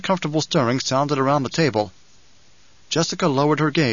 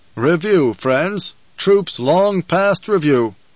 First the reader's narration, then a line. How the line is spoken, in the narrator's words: the Duke intoned